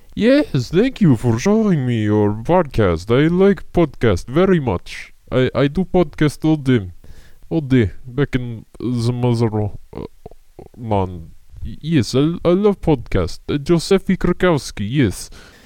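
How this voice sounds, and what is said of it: Very bad put-on foreign accent. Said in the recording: “has a very bad accent and sounds somewhat like me”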